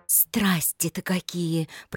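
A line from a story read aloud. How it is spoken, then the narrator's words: Whispered. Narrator (Russian): прошептала она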